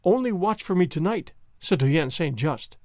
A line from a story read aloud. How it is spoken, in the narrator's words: he said eagerly